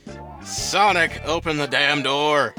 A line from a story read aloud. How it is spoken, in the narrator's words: yelled Sonic's housemate, Shadow